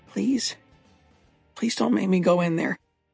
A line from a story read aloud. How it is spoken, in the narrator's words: Eric whispered